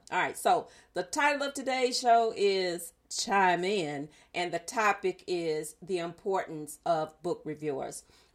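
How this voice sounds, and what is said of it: Strained, altered speaking voice. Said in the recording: “apologize for my voice. I am not trying to do an impersonation of Quiet Storm. My allergies are like in full gear.”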